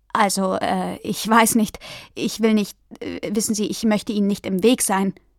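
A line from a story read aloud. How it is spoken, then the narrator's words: Stammering. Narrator (German): stotterte er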